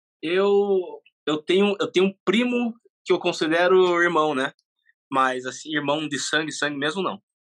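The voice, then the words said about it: Curitiba Brazilian Portuguese accent. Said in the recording (Portuguese): “ele tem sotaque de Curitiba. ... Tem sotaque curitibano”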